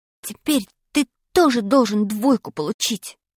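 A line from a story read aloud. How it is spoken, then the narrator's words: Whisper. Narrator (Russian): прошептал я Пашке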